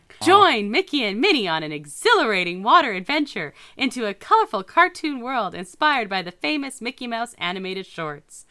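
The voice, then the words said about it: Announcer voice. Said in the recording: “put on my announcer voice ... Announcer voice.”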